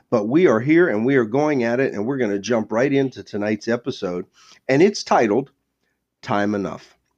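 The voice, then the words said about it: Stuffy, congested voice. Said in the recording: “I'm in month two of a head cold that just won't go away. So please excuse my voice”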